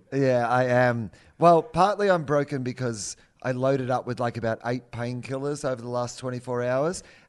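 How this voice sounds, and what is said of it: Sore, broken-sounding voice. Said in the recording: “you sound a bit sore ... hear it in my voice? ... you sound broken”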